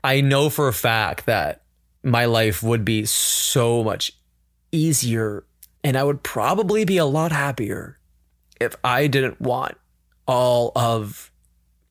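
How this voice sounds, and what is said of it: Emotional, tearful voice. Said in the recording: “I'm going to get emotional. I'm going to cry in my own podcast for the first time right now ... Let the tears out ... my ugly crying”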